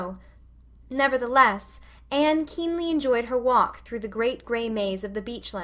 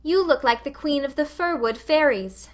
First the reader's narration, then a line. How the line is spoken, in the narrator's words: called Anne merrily